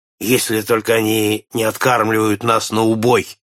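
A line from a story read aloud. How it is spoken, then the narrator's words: Grumbling. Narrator (Russian): проворчал Нед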